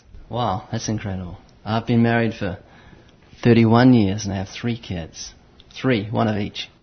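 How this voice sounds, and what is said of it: New Zealand accent. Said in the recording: “that funny accent that you have ... I'm originally from New Zealand”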